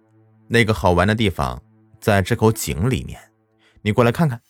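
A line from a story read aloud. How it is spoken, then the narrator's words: Cold. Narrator (Chinese): 李冰冷冷的说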